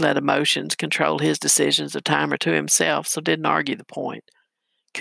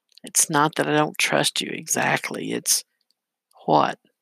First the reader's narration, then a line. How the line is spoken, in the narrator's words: She sighed, doubt and anxiety